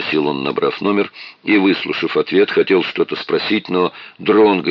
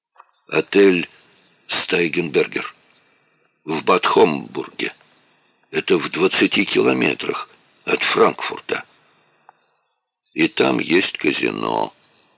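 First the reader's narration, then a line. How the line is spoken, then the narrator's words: Quiet statement. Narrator (Russian): тихо сказал Дронго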